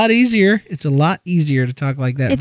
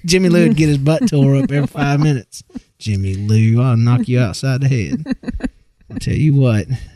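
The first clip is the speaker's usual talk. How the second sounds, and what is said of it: Georgia Southern accent. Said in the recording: “Not many people know I'm from Georgia, and that until I lost my accent, this is kind of the way I talk.”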